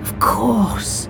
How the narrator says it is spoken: he sighed

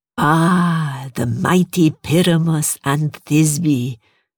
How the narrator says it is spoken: Masri purred

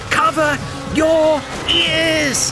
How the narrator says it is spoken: he shouted to Neil

